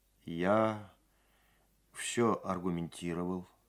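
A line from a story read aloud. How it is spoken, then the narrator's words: Dull, hollow voice. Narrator (Russian): сказал Сергей глухо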